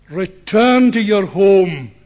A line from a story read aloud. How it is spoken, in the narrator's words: said